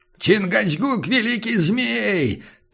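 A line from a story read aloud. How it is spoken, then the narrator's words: Solemn loud cry. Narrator (Russian): торжественно завопил индеец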